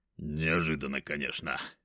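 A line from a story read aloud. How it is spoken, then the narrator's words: Deep bass voice. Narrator (Russian): пробасил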